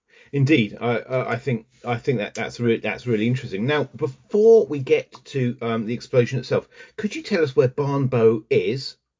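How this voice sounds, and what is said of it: Southern English accent. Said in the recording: “my southern accent probably has mispronounced it”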